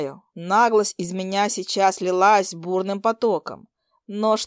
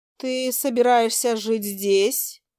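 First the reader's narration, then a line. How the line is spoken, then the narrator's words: Bewildered question. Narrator (Russian): растерянно спросила она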